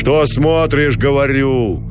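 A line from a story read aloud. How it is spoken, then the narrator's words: Deep shout. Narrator (Russian): густо крикнул Гранатуру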